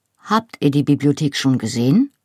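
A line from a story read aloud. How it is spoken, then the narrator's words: Plain. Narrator (German): fragte er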